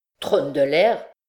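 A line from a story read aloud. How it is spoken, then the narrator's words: Exclaimed. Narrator (French): s'écria Pierre Manas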